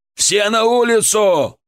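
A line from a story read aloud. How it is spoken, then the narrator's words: Shout. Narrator (Russian): крикнул Александр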